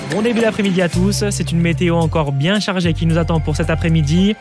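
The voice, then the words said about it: Southern French accent. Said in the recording (French): “le petit accent du sud”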